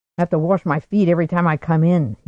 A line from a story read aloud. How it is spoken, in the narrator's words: he grumbled